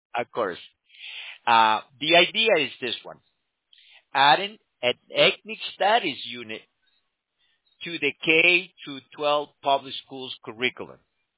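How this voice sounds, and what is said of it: Speaks with a noticeable accent. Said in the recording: “my accent sometimes gets in the way.”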